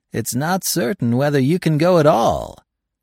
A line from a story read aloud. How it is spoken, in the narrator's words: said Lessard with a peculiar laugh